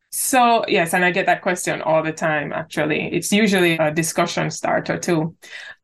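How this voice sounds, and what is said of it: Jamaican accent. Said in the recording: “you may have gotten a hint from ... accent that she's actually from Jamaica”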